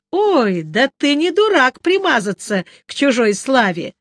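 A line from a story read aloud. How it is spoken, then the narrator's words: Ringing laughter. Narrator (Russian): звонко расхохоталась Сатофа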